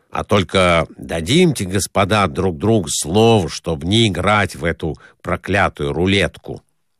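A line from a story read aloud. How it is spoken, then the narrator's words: After grumbling. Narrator (Russian): Поворчав еще несколько времени, он сказал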